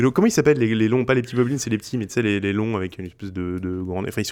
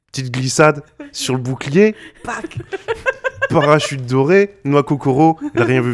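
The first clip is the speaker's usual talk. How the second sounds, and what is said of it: Puts on an accent. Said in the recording (French): “je prends l'accent”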